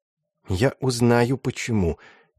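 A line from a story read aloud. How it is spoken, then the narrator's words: Quiet mutter under breath. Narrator (Russian): тихо пробормотал себе под нос Матиас Кручек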